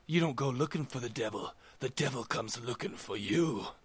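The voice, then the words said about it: Scary spooky voice. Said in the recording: “I did that in my scariest voice”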